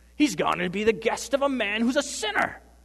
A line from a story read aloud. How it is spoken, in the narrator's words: Someone calls back to the crowd